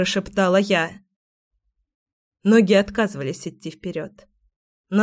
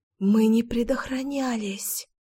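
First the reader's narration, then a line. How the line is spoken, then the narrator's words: Whispered. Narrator (Russian): прошептала я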